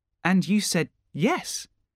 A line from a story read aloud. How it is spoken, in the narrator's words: said Peter